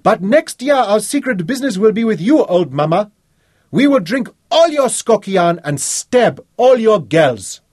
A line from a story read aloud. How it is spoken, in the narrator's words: Wellington shouted back